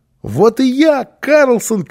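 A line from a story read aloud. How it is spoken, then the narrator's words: Child shouting. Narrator (Russian): крикнул малыш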